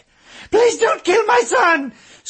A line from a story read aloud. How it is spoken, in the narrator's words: screamed the woman standing alone